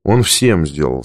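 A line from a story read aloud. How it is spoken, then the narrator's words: Plain. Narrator (Russian): сказал я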